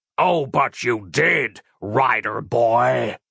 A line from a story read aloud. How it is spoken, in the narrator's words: snarled the randy man